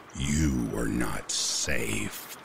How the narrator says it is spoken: It muttered in a distorted voice

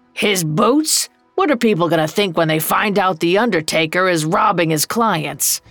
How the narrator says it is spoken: Old Joe growled

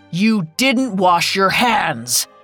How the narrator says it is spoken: boomed

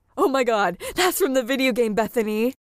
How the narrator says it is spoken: exclaimed the guy

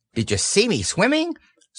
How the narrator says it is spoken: squeaked Roo excitedly

